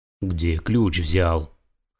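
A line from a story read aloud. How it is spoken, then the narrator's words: Hoarse fat man. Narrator (Russian): хрипло спросил толстый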